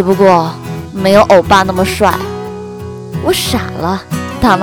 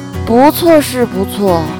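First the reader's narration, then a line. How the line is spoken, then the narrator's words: Sighing. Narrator (Chinese): 周小胖叹息说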